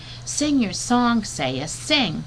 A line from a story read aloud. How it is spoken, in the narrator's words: I squeaked out as loudly as I could